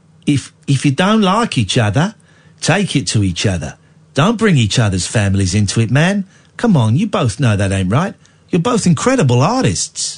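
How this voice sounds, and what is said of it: Imitates another person's voice. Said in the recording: “That's not a bad impression.”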